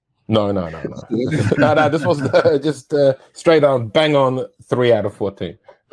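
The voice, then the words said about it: Mixed European-sounding accent. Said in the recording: “What's that accent ... I would have picked it as European ... a bit of Euro trash”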